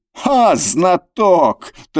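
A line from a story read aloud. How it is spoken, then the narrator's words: Triumphant laughter. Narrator (Russian): торжествующе захохотал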